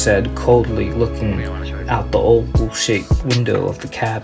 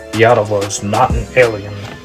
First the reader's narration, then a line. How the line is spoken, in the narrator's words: Duke snarled